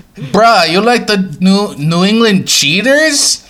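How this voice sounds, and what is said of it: Put-on Hawaiian accent. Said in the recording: “I've not gotten better at my Hawaiian accent”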